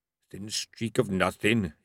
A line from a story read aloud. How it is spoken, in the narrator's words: he muttered at the angry eyes